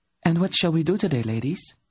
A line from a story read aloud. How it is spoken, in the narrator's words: Tenedra asked the two of them brightly